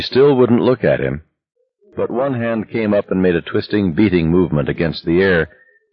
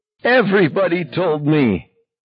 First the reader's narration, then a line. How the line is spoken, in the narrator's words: cried